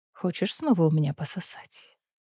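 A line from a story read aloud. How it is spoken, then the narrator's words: Whisper in ear. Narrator (Russian): шепнул он ей на ухо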